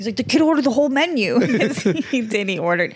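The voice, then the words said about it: Imitates another person's voice. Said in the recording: “can you do an impression of Rich Voss ... I can't do a boss. I'm sorry. ... Sorry. That was bad.”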